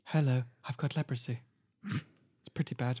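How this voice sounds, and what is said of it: C-3PO style impression. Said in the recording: “Is that Hannibal Lecter impression? ... It was C-3PO”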